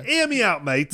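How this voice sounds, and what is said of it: Put-on British Cockney accent. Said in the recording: “can you say that with a British accent? ... it's either Australian or like a ... Cockney.”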